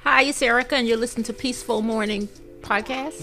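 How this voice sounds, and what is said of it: Polite customer service voice. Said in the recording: “put on your um your customer service voice”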